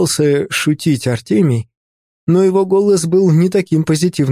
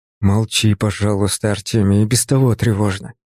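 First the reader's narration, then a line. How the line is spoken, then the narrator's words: Mutter. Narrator (Russian): буркнул я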